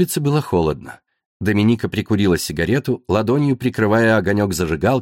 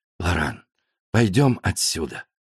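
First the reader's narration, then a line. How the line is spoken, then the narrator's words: Quiet words in ear. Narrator (Russian): тихо на ухо скажет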